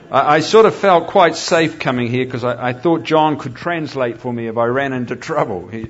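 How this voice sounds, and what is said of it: Strong regional accent. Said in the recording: “You following this accent all right? I tell people I'm from the South. No, not Alabama.”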